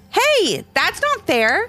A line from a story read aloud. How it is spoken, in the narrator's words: exclaimed Levi